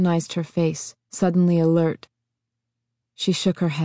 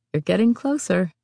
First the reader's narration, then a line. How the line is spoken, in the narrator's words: she admitted